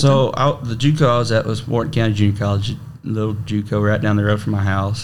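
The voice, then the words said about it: Regional accent. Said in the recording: “your accent”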